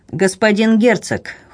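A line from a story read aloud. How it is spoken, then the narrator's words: Cold reply. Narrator (Russian): холодно отвечал Дрейв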